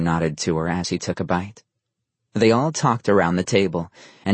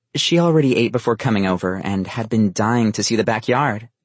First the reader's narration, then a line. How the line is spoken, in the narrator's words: Elle quickly responded